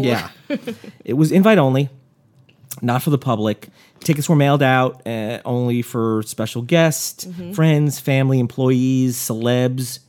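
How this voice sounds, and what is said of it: Hoarse, nearly lost voice. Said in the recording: “I've lost my voice. ... I've lost my voice.”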